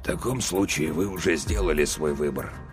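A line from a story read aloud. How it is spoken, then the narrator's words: Barely audible. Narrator (Russian): сказал язва настолько тихим голосом, что мне лишь с большим трудом удалось разобрать его слова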